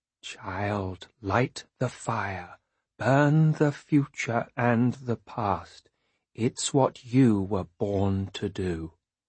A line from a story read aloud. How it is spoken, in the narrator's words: In a slow and frightening voice, she says